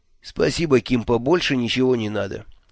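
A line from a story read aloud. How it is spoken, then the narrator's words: Calm reply. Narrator (Russian): спокойно отозвался Джуфин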